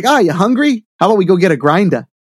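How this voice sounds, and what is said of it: Put-on New England accent. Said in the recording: “we were in New Hampshire ... My dad didn't have that accent”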